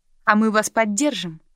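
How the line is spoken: Plain. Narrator (Russian): сказал Кент

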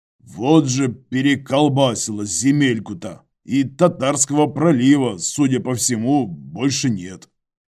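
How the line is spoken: Snort. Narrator (Russian): хмыкнул Иваныч

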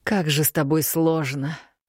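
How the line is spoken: Exhaled with effort. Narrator (Russian): выдохнул Мракьян, словно с усилием

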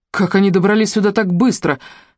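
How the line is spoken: Exclaimed. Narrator (Russian): воскликнул Финн

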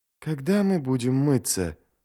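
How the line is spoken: Muttering. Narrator (Russian): пробормотал Ярви

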